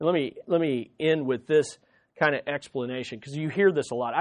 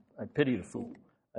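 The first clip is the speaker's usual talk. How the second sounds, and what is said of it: Mr. T impression. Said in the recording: “it's like Mr. T... Probably don't have the accent right”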